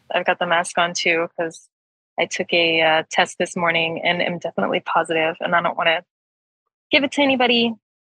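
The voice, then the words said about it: American accent. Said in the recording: “accent sounds quite American”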